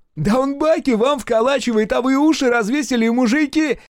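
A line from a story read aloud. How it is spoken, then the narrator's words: Shrill squeal. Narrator (Russian): взвизгнул Ягоза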